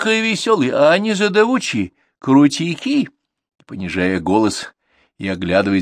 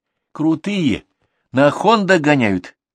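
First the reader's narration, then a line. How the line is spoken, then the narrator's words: Sighing. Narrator (Russian): вздохнул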